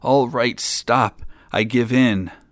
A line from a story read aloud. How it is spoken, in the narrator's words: beat the old man mercilessly, raining blows on him till he whimpered and moaned and cried